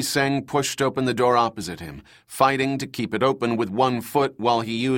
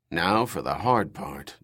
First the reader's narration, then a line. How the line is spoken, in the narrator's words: George muttered